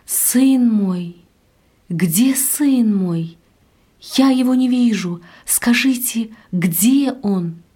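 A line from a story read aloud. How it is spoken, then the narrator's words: Frightened heartrending scream. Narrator (Russian): Она испуганно вдруг закричала раздирающим голосом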